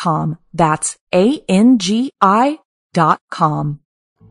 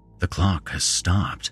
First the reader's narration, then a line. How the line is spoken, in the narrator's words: he murmured